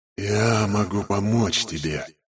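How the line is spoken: Sudden whisper in ear. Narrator (Russian): прошептала вдруг смерть мне в самое ухо

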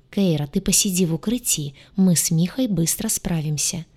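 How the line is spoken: Telepathic whisper. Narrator (Russian): прошептал у нее в голове гадюша

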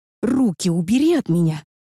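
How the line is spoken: Growled. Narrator (Russian): рыкнула я

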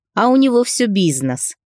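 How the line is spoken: Snide smirking young man. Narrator (Russian): ехидно ухмыльнулся парень

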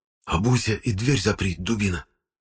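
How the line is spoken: Whisper. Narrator (Russian): прошептал Семен

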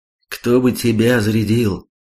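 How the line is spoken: Sigh. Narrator (Russian): вздохнул Хонда

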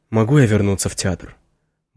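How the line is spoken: Dull muffled voice. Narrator (Russian): Мой голос звучит глухо

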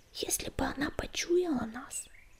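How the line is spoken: Whispered in ear. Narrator (Russian): прошептал ему на ухо Крутобок

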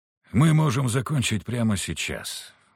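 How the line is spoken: Tired sigh. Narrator (Russian): устало вздохнул Виктор

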